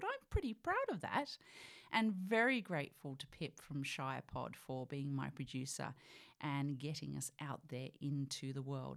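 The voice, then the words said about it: British accent. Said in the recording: “I was, of course, born in the UK. You know that by my accent, I'm sure.”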